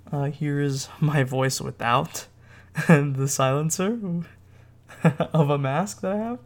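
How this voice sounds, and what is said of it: Muffled voice. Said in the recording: “my voice sounds a little muffled”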